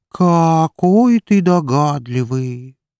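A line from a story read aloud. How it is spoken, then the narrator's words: Drawling sarcastic voice. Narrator (Russian): протянул язвительный голос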